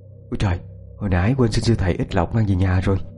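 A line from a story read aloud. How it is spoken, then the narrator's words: Muttering. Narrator (Vietnamese): chị lẩm bẩm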